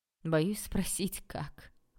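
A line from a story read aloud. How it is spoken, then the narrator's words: Short laugh. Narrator (Russian): коротко рассмеялся Олег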